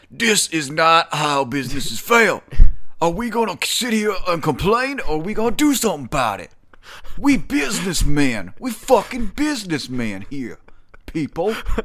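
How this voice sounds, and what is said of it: Imitates another person's voice. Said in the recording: “You kind of sound like Colonel Sanders ... my Ja Rule impersonations”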